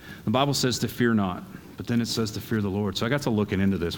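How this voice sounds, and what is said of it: Southern American accent. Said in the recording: “I've got that southern dialect going”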